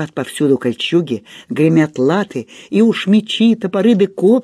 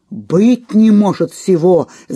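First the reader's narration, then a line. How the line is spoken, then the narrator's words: Hundreds of warriors shouting. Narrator (Russian): закричали дружинники в сотни глоток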